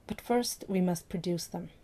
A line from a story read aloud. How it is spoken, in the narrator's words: Jack murmured against Stephen's ear